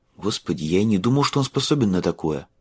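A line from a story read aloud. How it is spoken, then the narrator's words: Muttered. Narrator (Russian): пробормотал Майлз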